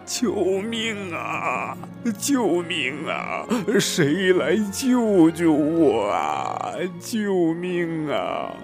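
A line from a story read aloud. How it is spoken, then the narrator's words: Desperate shouting while sinking. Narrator (Chinese): 霸王龙慢慢的往海底沉去，他嘴里边喊着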